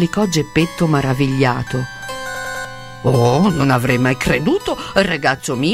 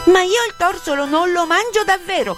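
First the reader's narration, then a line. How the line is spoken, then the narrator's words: Angry, venomous puppet shout. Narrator (Italian): gridò il burattino rivoltandosi con una vipera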